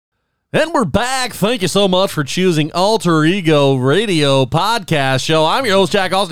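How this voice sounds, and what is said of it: Announcer-style radio voice. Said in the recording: “Is this your? Is this your radio voice?”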